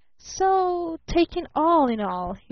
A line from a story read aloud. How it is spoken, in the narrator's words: he drawled, still beamingly